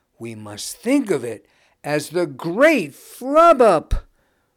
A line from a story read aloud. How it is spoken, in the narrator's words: roared a mother